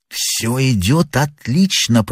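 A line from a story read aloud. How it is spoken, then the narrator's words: Whispered. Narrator (Russian): прошептал первый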